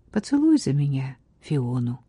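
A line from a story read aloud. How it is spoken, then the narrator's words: Quiet. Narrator (Russian): тихо сказала графиня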